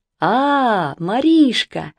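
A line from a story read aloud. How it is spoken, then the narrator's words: Cheerful familiar voice. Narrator (Russian): весело ответил чей-то знакомый голос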